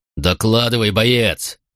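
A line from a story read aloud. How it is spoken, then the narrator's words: Barked. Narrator (Russian): рявкнул Катон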